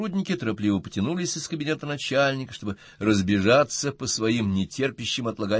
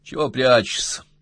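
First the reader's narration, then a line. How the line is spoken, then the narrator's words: Grumbling. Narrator (Russian): пробурчал Колобок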